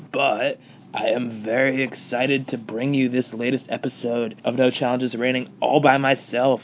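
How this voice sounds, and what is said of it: Congested, stuffy-sounding voice. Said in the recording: “As you can probably tell, I have a little bit of a cold”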